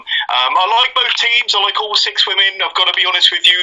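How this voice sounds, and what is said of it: Learned, scholarly-sounding accent. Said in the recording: “The accent makes your opinions seem that much better. It's like this learned, scholarly.”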